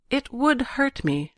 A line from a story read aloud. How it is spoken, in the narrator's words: she said quietly